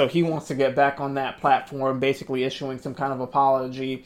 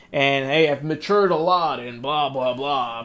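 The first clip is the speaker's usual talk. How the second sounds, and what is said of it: Imitates another person's voice. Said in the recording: “I'm trying to do his voice.”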